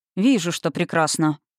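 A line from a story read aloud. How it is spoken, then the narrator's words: Dry dragon voice. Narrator (Russian): сухо сказал дракон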